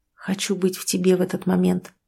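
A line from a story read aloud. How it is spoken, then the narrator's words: Muttered. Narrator (Russian): пробормотал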